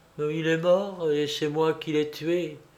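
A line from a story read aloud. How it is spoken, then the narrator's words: Murmur. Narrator (French): Charlotte murmurait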